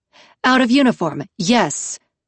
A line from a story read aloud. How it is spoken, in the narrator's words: Mahit snapped